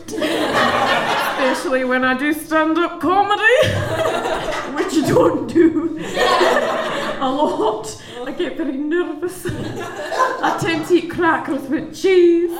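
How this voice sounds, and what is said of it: Scottish accent. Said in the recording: “I come from Scotland, but my accent ranges a wee bit.”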